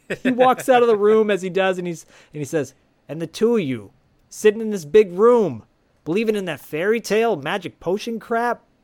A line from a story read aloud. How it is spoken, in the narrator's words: Ed yells at him and says